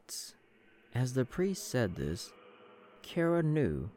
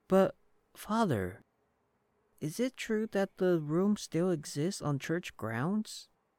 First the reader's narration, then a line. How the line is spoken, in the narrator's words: one child asked the priest